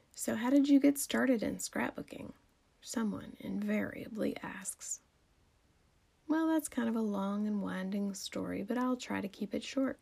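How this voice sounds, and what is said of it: Southern drawl, female speaker. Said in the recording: “that southern girl drawl in my voice”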